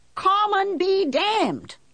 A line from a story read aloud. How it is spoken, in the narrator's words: I yelled